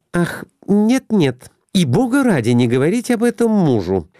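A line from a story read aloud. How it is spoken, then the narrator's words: Frightened exclamation. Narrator (Russian): воскликнула испуганно Глафира Семеновна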